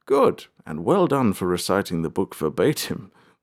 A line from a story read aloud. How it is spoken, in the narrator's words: the king chuckled